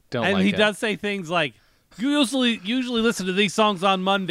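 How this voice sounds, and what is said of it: Usual voice. Nothing is said of it.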